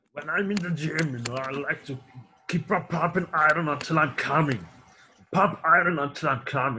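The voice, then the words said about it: Imitates another person's voice. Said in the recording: “your Arnold Schwarzenegger impression”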